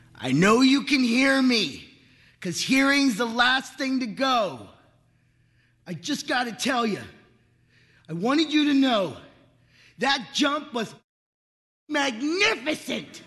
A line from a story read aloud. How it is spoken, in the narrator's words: Henry leaned in close and bellowed into his ear